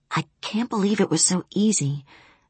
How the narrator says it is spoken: I whispered to him on intercom

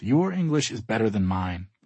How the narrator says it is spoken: I whisper

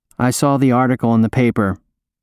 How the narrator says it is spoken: he says, his voice flat and robotic

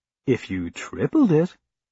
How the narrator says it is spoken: Olivia said, sweetly and coldly

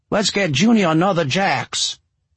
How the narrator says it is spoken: Walt shouted to the barmaid

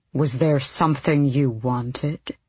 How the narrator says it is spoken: the king asked coolly

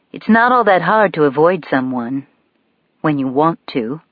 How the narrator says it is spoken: I answer coolly

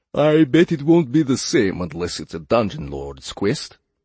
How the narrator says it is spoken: said Yorjay, suppressing a yawn

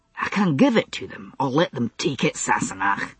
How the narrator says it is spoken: said, a little testily

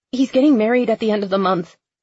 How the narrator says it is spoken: Becca blurting

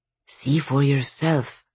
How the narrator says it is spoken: whispered the Dvorovoy again

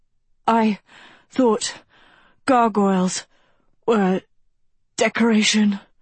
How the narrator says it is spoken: she wheezed

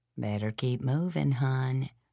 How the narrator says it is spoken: she said quietly

